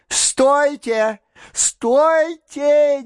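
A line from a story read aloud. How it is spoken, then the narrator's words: Frantic shout. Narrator (Russian): неистово закричал он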